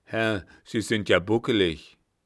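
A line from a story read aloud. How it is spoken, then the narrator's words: Pitying scorn, blunt. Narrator (German): Der Kapitän betrachtete den neuen Lehrer mit mitleidigem Hohne und sagte rücksichtslos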